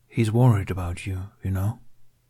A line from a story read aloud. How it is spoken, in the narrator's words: he added quietly